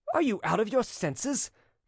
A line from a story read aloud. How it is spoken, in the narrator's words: cried a young man